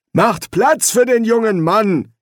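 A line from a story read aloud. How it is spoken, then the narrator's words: Domineering call, pipe smoker. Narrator (German): rief der Pfeifenraucher herrisch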